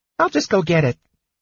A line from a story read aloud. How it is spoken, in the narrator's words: Tass said cheerfully to Sturm